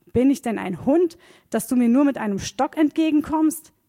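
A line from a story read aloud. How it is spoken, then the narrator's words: Bellowed at someone. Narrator (German): brüllte Goliath ihn an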